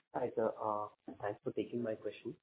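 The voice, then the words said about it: Quiet, low-volume voice. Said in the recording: “your voice is a little low”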